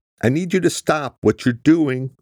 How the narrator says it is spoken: she shouted to the richly tanned driver

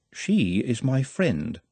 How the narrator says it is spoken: said Nut calmly

